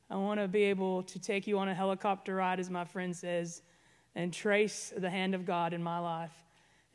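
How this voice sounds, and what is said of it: Southern Arkansas hillbilly accent. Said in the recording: “I have an accent ... I'm originally from Arkansas, northwest Arkansas. So you hear the hillbilly.”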